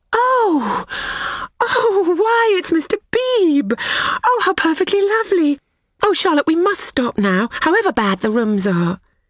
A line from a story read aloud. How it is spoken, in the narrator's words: Lucy exclaiming